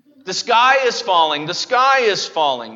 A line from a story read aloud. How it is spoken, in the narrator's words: cried out again and again